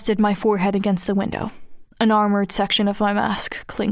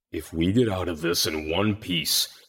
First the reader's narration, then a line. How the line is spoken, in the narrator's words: Gru spoke, his tone low and menacing